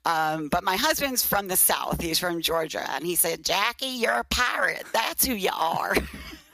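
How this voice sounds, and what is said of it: Brooklyn accent. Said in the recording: “even after 20 years, you still hear the Brooklyn accent”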